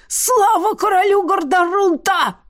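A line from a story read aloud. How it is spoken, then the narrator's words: Hoarse yell. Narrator (Russian): хрипло заорал иностранный шпион, барон Анирф Ергирд по прозвищу Светлячок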